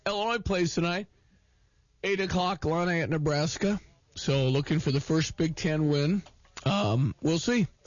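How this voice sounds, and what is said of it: Rough voice from a cold. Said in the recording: “Apologize again for my voice. I've been fighting a cold since the Cardinal Caravan. ... I sound like awful. ... Sorry for my voice. ... Just sounds sucky.”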